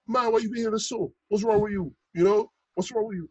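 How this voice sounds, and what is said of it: Imitated thick Bajan accent. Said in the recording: “I can't do his accent justice, you know, because he has such a thick Bajan accent.”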